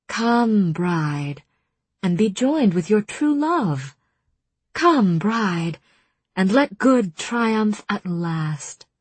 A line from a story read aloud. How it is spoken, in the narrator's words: Ianthe said smoothly